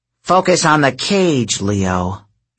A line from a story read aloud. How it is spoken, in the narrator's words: she grumbled